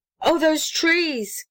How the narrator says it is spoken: cried James White

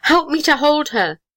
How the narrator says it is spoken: cried James White

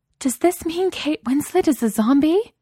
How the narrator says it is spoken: exclaimed

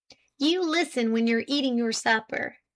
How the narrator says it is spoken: cried Jim

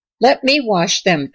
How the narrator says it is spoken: begged Violet

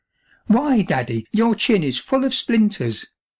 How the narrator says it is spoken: she exclaimed

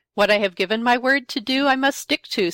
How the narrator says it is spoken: said

